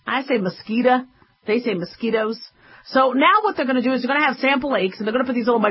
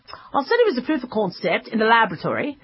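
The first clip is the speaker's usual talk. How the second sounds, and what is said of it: Put-on British accent. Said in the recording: “Well, she probably did in a British accent.”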